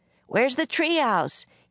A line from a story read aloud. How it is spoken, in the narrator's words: shouted